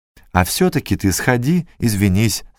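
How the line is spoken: Plain. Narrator (Russian): сказала она

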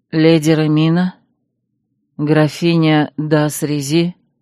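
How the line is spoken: Low, muffled voice. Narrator (Russian): Глуховатым низким голосом спросила гостья

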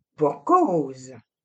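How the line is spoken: Sneering laugh. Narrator (French): ricana Alain

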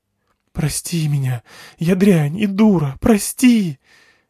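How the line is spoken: Sobbing teenage girl. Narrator (Russian): зарыдала в два ручья, как будто не дочь владетеля, а обычная 17-летняя девчонка

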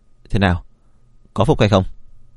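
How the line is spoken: Cold. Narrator (Vietnamese): Vân Vi Sương lạnh lùng nói

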